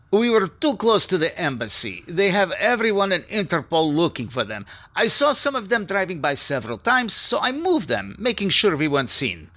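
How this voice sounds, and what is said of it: Russian accent. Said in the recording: “speaking with a Russian accent”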